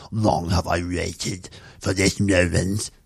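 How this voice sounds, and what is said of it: Character voice with tongue held low. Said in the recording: “That's how the Emperor speaks... It's like his tongue is stuck to the bottom of his mouth and he can't move it.”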